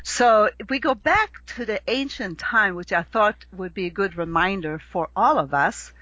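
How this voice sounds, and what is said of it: Slight Swedish accent. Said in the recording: “if you hear my little accent that I have left ... Swedish”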